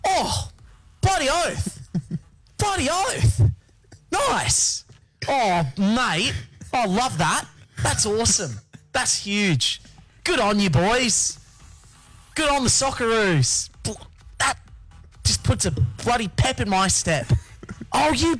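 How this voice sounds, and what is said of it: Impression of Bobby Irwin. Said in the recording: “he did an impression of Bobby Irwin watching the Socceroos”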